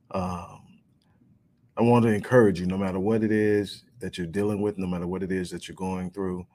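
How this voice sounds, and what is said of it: Worn, strained voice. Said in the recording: “My voice has taken a little of a beating”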